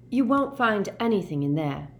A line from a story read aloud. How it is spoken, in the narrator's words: said Hermione firmly